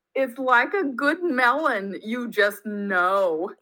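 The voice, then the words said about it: Put-on New York accent. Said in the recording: “in my New York accent.”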